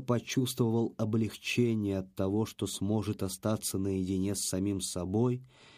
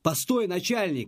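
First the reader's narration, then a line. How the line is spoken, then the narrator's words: Sudden cry. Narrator (Russian): вскрикнул вдруг Леха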